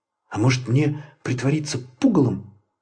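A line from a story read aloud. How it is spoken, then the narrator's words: Whispered. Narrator (Russian): прошептал он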